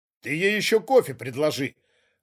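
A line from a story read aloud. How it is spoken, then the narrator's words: Scornful snort. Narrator (Russian): фыркнул второй управленец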